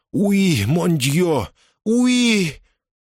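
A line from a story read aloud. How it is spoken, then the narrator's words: Moaning. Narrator (Russian): Она застонала, произнесла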